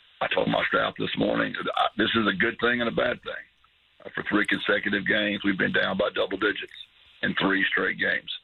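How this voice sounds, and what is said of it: Strained, worn-out speaking voice. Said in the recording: “I apologize for my voice this morning. I hate hearing my own self talk right now. I sound like Bobby Boucher.”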